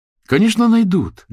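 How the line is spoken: Heated exclamation. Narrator (Russian): горячо воскликнула Маня

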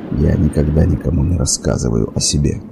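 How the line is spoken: Muttered. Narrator (Russian): пробормотал

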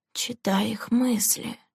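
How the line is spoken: Quiet reply. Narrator (Russian): негромко ответила Лэнди

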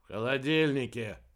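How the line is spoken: Grumbling. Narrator (Russian): проворчал Кольдер

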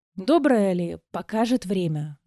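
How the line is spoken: Sighing plea. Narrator (Russian): Вздохнула и взмолилась

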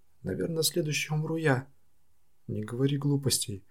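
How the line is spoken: Exclamation. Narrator (Russian): воскликнула сестра Ясунага

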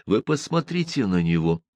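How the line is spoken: Delighted whisper. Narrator (Russian): восторженно шептал я Фриделю

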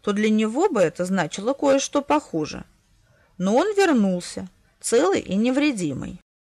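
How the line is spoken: Calm bishop's reply. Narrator (Russian): спокойно ответил епископ

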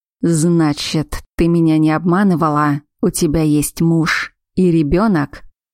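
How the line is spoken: Werewolf growling. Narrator (Russian): прорычал оборотень

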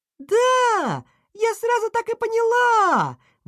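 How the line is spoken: Laughing exclamation. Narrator (Russian): воскликнула она и залилась смехом

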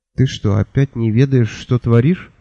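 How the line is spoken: Weary question. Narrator (Russian): устало поинтересовалась Миламари

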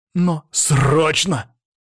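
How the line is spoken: Barking. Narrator (Russian): рявкнул

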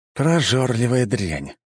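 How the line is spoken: Sighing. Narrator (Russian): вздохнул я

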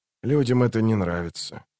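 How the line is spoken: Quiet. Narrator (Russian): тихо закончил Ток

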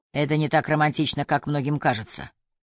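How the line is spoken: Grumbling. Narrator (Russian): проворчал Ньюберг

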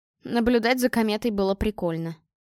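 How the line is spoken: Amused snort. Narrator (Russian): хмыкнул Игорь

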